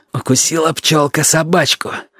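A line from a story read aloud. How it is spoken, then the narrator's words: Through gritted teeth. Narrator (Russian): сказал сквозь зубы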